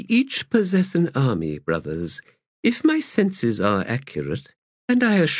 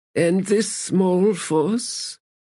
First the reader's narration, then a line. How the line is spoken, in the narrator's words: Brother Grave said in his thin voice